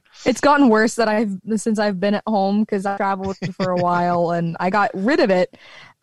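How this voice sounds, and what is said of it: Slight Southern American accent. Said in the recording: “slight twinge of a Southern accent... I drop my L's... The I's are elongated.”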